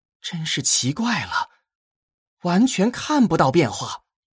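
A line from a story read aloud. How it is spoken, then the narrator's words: Sighing. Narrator (Chinese): 荀音 叹了口气，道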